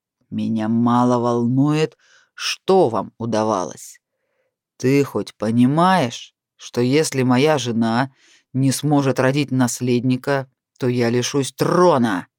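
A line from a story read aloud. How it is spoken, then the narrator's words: Growled. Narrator (Russian): прорычал Натаниэль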